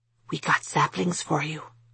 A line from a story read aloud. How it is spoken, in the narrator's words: he whispered